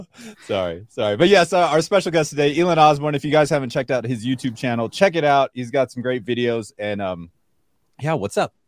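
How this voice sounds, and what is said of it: Deep DJ-style voice. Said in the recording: “That's a good DJ voice ... He got a deep voice.”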